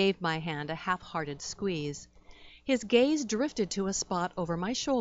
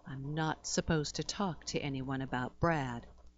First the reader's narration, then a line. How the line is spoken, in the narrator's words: said, lowering his voice